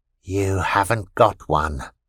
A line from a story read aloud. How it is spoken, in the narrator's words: Vita whispered